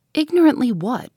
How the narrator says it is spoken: inquired Miss Halcombe sharply

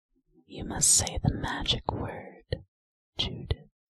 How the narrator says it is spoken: whispers Mr

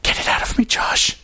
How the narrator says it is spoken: Emma whispered, her voice cracking

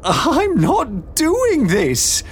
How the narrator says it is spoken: Beatrix cried

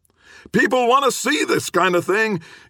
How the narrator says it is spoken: Gibbons shouted after him

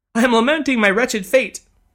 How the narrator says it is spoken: sobbed the lady, once again on the verge of tears

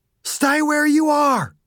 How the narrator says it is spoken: Dew screamed

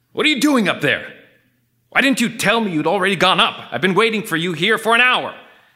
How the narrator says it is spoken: shouted

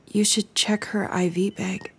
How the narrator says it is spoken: she murmured

